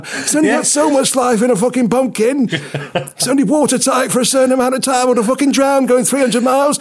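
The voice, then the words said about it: Failed Australian accent sounding Salford. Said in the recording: “I thought you said he was Australian. Why is he from fucking Salford all of a sudden? ... I can't really do an Australian accent.”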